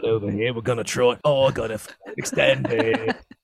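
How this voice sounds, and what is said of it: Put-on Australian accent. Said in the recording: “now do that with an aussie accent”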